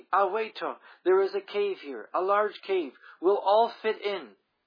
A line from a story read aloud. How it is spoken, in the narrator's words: came running back around a cliff, crying excitedly